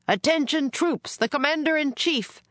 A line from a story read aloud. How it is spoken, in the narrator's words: a soldier shouted